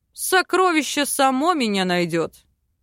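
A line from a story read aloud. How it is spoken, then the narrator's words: Man's scoffing snort. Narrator (Russian): хмыкнул мужчина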